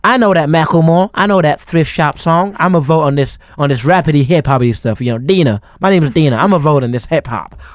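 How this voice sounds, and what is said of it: Imitates a country music fan. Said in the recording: “that is your impression of someone that listens to country music”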